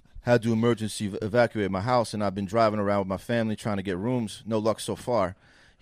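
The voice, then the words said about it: Monotone imitation of another person's voice. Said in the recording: “That was a risky accent. ... It was a risky accent. But LeBron's got kind of monotone.”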